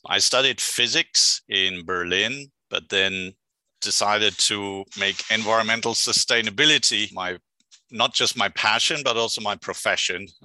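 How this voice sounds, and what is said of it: German accent. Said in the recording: “I hail from Germany, which you can probably hear by the accent”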